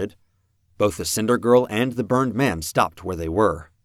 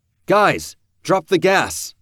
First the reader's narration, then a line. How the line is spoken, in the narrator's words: I shouted